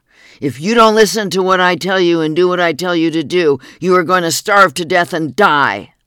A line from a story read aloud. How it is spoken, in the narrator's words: responded, screaming loud enough for all to hear